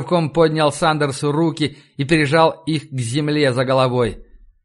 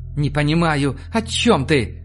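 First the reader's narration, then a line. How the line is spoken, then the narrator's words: Faint babbling, holding breath. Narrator (Russian): Пролепетал Сандерс, стараясь не дышать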